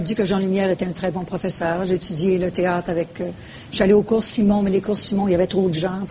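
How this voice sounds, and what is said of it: Persistent Québécois French accent. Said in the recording (French): “elle a essayé de faire perdre mon accent, mais oui, ça n'a pas fonctionné”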